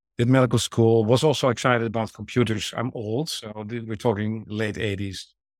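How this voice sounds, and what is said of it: Dutch-accented English. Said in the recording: “as you can hear from my accent, trained in the Netherlands, in Amsterdam”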